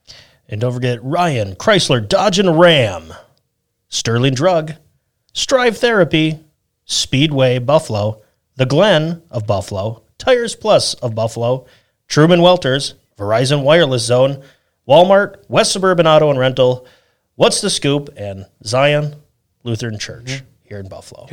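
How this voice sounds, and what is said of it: Imitated radio announcer voice. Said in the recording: “I was trying to impersonate my best radio voice. ... The guy who did the introductions for the movie theater ... probably not even close.”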